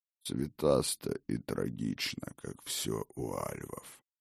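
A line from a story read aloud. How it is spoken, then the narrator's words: Near growl. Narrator (Russian): почти прорычал Один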